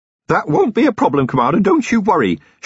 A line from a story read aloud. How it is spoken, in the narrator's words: shouted Feeney, with infuriating cheeriness